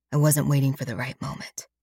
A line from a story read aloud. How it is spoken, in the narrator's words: he whispers